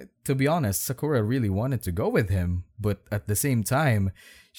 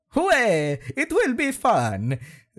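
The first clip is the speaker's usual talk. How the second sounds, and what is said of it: Mario character voice impression. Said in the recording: “my fucking Mario impression.”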